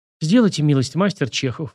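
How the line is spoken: Pleading. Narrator (Russian): взмолился реставратор

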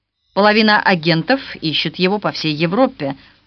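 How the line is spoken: Plain. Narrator (Russian): сказал генерал Хиллиард

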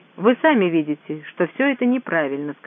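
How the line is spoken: Plain. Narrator (Russian): сказала миссис Блаунт

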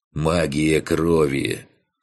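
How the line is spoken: Calm explanation. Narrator (Russian): спокойно пояснил Фантик

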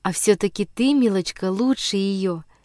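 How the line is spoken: Very tender, smiling. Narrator (Russian): Чрезвычайно нежно улыбнулась Сибирочке Герта

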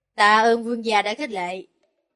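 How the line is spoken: Smiling, hoarse reply. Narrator (Vietnamese): Người nọ mỉm cười, dùng thanh âm khàn khàn để đáp lại

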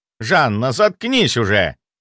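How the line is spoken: Menacing shout. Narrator (Russian): грозно прикрикнул на нее Боярышников

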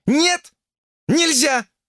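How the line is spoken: Shrill shriek. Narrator (Russian): взвизгнула она

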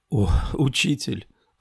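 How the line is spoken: Astonished whisper. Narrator (Russian): прошептала пораженная

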